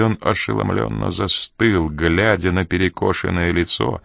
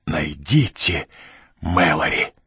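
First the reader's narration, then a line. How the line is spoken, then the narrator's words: Hoarse female rasp. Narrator (Russian): Прохрипела она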